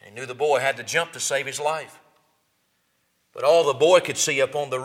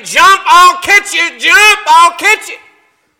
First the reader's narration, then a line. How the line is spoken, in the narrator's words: His father kept yelling